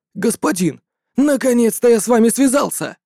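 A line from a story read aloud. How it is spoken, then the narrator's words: Excited exclamation. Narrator (Russian): С волнением воскликнул Тан Сюй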